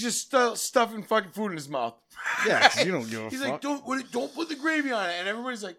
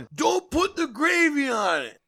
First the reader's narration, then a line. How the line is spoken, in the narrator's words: He starts yelling